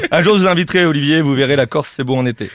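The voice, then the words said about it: Corsican-accented French. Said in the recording (French): “avec ce ah, genre de blague et mon accent, ... pas besoin de dire d'où je viens.”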